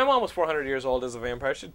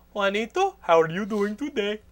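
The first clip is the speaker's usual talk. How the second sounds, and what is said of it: Imitates mother's foreign accent. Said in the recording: “she still talks like ... she'd probably still have that fucking accent”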